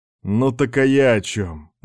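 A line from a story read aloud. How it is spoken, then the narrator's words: Glum snort. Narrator (Russian): невесело хмыкнул контрразведчик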